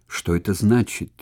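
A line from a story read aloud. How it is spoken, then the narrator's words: Near-terrified whisper. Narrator (Russian): чуть не в ужасе прошептал Сулла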